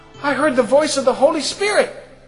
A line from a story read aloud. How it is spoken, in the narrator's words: started shouting that outside